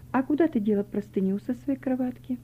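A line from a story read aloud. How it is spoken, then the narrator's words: Quiet question. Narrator (Russian): тихо спросила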